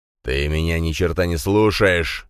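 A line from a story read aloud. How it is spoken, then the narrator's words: Angry growl. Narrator (Russian): зарычал Дракен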